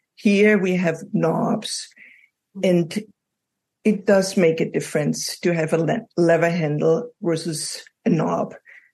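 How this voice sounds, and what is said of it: European accent. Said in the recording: “as you probably noticed from my accent, I come from Europe”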